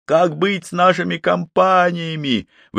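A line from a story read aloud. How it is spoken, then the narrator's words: Someone shouting out. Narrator (Russian): выкрикнул кто-то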